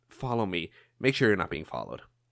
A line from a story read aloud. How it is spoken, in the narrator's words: he whispers